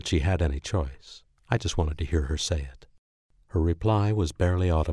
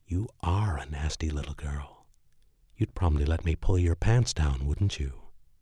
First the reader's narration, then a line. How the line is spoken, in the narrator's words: breathed into her ear and whispered